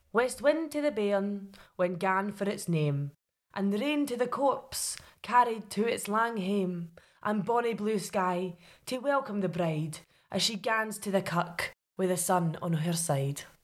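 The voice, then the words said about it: Put-on regional folk-poet accent. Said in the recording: “can you do a Northwest Coast superstitious but religious poet? ... stepping up the requirements for the accent”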